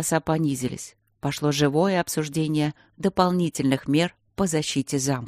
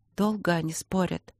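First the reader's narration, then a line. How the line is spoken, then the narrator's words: Whisper. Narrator (Russian): прошептала Полина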